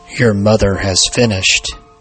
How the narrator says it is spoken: growled

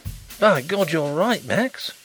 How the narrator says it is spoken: he exclaimed

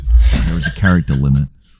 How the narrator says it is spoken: Rocket whispers

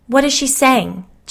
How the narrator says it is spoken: Jill begged

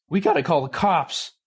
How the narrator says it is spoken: Ravi cried

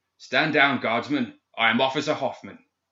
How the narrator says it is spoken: bellowing

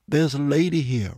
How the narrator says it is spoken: Robert said

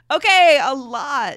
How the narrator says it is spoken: she laughed

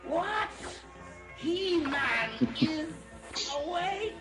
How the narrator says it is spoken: screamed King Hiss

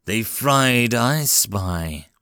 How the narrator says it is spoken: Walker asked in a deceptively calm voice

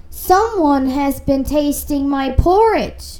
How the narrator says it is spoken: said the father bear in his great big voice

